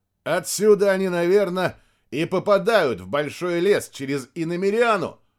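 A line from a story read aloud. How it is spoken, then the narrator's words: Shouting. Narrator (Russian): прокричал Максим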